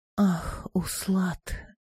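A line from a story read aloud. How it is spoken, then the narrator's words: Faint dying voice. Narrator (Russian): сказала она умирающим голосом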